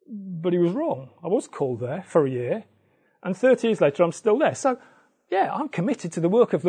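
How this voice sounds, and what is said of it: Usual voice. Nothing is said of it.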